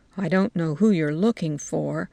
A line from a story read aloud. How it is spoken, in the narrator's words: she muttered